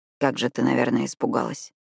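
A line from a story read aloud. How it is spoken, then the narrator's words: Barely audible. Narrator (Russian): чуть слышно произнес он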